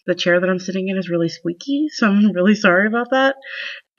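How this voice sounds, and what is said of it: Slightly congested voice. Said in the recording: “I have a little bit of a cold, so if I sniffle some”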